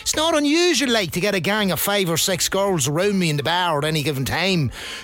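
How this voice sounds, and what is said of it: Dundalk Irish accent. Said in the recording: “they're only interested in laughing at my accent... A Dundalk man complaining about someone else's accent”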